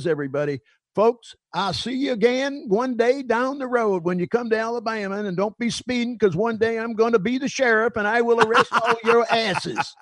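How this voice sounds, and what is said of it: Put-on Southern US accent. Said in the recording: “not a bad Southern accent either.”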